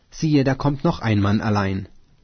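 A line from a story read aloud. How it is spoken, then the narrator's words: Guard calling into gate. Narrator (German): der Wächter ... rief in das Tor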